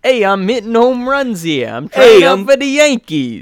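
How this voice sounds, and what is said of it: Put-on New York accent. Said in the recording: “like a New York accent kind of thing”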